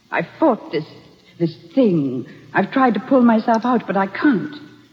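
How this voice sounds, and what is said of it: Dramatic put-on accent. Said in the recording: “the accent, the drama ... It's amazing ... Minus the accent ... Put on”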